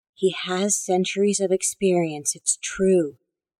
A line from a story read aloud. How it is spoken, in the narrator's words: the woman in the wheelchair whispered